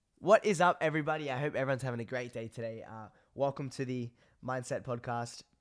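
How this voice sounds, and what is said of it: Congested, partly lost voice. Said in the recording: “my voice sounds super, super weird at the moment ... I get really bad allergies ... my nose is so blocked. I can't even breathe through it. And I've lost my voice as well a little bit.”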